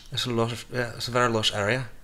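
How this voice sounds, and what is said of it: Put-on accent, badly done. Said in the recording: “Sometimes I talk in an accent, and sometimes I don't. But when I do, it's terrible.”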